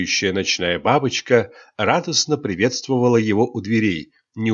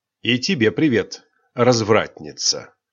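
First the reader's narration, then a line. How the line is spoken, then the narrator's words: Hmph. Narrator (Russian): Кайл хмыкнул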